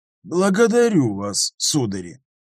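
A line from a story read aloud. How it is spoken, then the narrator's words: Cold, professor. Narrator (Russian): холодно ответил профессор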